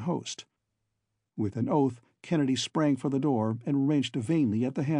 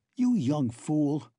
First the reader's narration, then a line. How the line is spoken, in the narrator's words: snarled the other